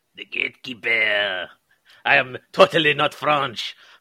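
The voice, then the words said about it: Bad fake French accent. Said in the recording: “It's our Scottish Frenchman. He's not quite there. ... I was trying to do a bad accent.”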